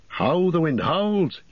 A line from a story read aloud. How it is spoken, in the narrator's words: He cried